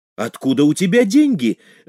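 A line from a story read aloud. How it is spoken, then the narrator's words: Exclamation. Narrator (Russian): воскликнул Натаниэль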